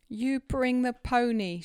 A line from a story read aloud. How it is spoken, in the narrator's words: she exclaimed